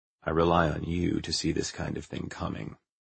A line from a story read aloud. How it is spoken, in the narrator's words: said Westinghouse quietly